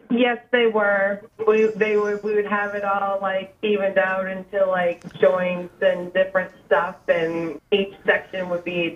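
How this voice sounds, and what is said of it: Hoarse, sick-sounding voice. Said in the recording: “Sorry I'm sick, so I sound like a horse.”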